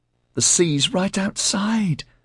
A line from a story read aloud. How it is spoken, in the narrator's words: Barry squealed as he ran back through the house